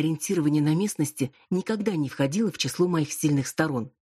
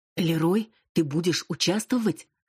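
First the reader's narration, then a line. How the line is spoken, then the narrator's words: Terrified hiss. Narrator (Russian): в ужасе зашипела Крис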